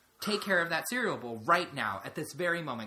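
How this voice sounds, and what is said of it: Stern dad voice. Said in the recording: “in my best dad voice.”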